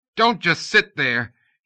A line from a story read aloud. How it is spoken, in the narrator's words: he yelled at Gentry